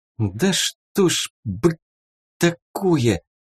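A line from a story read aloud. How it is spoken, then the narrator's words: Hissed through teeth. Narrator (Russian): сквозь зубы прошипела Рина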